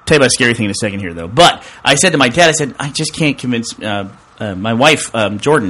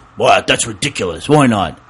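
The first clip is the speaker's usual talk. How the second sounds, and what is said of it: Imitates another person's voice. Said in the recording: “what's my dad impression of my dad”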